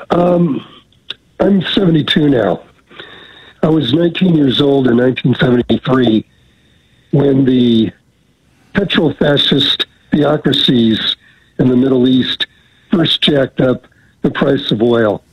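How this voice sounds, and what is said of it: Voice rough from a cold. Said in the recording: “I'm getting over a cold here, so my voice isn't great”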